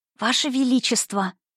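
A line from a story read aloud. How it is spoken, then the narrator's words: Babbling whisper. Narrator (Russian): пролепетала она почему-то шепотом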